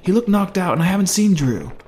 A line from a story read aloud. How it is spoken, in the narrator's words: he yelled back through the growing noise